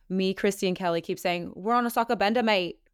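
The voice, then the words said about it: Put-on Australian accent. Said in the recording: “that's my Australian accent. I don't know if it was good ... I think it was pretty good”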